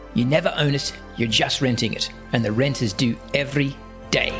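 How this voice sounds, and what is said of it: Good South African accent imitation. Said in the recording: “That's a good South African accent.”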